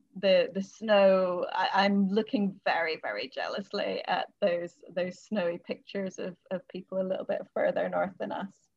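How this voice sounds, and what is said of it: Mixed accent with Scottish lilt. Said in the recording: “I'm from Scotland ... people often think I'm from the States or from Canada ... my accent nomadic and changes with whoever I'm talking to, but there's a lilt there”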